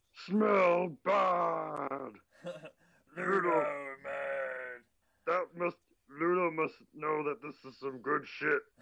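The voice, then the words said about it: Imitated monster character voice. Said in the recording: “did a perfect impression of him”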